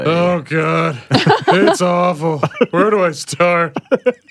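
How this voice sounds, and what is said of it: Imitates another person's voice. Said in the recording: “good impression”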